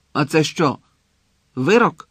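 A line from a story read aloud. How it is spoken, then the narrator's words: Angry question. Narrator (Ukrainian): сердито спитав Гонт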